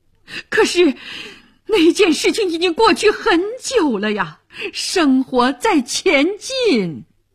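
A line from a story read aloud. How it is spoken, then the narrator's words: Pale, frightened shout. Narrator (Chinese): 这时面色苍白惊魂不定的伊尔喊道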